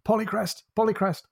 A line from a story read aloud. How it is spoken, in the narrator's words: He shouts